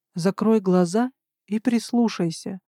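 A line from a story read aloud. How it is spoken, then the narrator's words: Conspiratorial whisper. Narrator (Russian): прошептал он с заговорщицким видом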